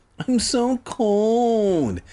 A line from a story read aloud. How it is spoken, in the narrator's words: Sheena whined, like a little bitch